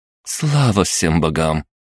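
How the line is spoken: Relieved exhale. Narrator (Russian): с облегчением выдохнула Кристина

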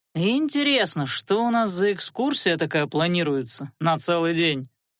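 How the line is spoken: Drawled. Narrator (Russian): протянул Велерат

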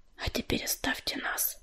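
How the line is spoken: Whispered command. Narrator (Russian): шепотом приказала она Листвичке и Мотылинке

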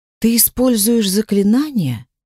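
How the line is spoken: Sighing. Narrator (Russian): вздохнула

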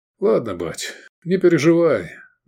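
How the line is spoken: Sigh. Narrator (Russian): вздохнул Сергей

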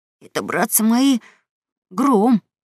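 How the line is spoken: Frightened announcement. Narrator (Russian): испуганно объявил Гекельберри

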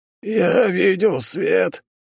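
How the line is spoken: Lost hoarse rasp. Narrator (Russian): потерянно прохрипел

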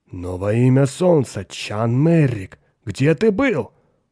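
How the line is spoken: Giant's exclamation. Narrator (Russian): воскликнул гигант Хоик

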